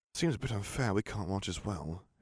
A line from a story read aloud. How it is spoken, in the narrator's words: muttered